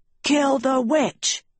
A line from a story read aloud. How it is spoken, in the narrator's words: Evers cried